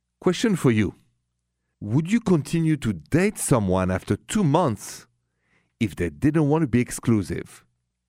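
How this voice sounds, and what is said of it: French accent. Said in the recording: “The accent is French, by the way.”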